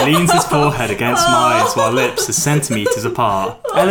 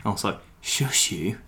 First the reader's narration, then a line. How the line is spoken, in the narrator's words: he whispers